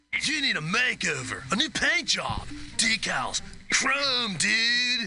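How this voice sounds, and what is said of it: Laid-back surfer dude voice. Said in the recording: “hippie voice. Surfer voice.”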